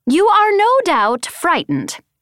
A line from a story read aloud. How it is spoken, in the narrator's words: Winzik called, his voice amplified over the ship's speaker system